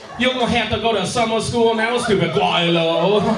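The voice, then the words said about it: Put-on Chinese accent. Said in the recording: “do that voice ... white people getting offended on behalf of Chinese people”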